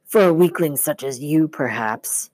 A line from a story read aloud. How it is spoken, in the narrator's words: the voice snarled